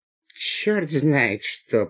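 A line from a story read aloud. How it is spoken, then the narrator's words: Through gritted teeth. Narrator (Russian): процедил сквозь зубы гражданин в пенсне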